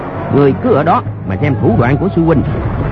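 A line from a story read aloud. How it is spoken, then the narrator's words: Shouting. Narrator (Vietnamese): quát lên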